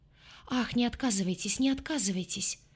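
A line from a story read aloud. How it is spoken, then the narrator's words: Pleading voice. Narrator (Russian): промолвила фрау Леноре умоляющим голосом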